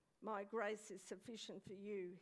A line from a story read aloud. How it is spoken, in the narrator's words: he said